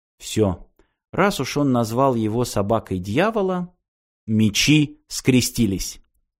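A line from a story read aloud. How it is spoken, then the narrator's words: Quiet. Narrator (Russian): Ирина тихо сказала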